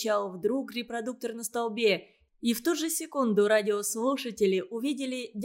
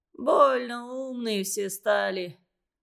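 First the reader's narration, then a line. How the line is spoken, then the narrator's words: Gloomy reply. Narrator (Russian): мрачно ответил дядя Семен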